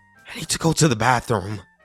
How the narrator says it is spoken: I said shakily

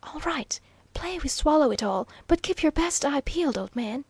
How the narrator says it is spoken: guardedly whispered Waldo

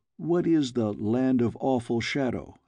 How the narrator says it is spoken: I asked

